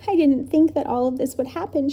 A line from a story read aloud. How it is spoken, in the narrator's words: she sobbed